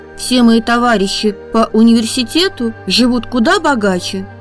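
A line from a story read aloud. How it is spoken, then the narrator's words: Plain. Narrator (Russian): сказал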